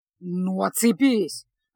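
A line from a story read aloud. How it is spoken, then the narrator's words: Irritated grumble. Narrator (Russian): раздраженно проворчал Кай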